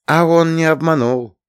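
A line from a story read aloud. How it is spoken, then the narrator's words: Affectionate. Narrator (Russian): ласково сказала Лея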